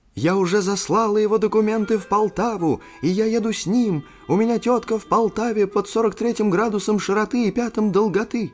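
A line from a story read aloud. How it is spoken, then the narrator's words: Excited, joyful shout. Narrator (Russian): Брюнеткина голова вынырнула из двери и крикнула возбужденно и радостно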